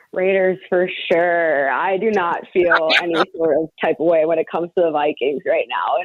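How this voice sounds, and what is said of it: Minnesota accent. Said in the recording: “a lot of people could pick up Minnesota accent”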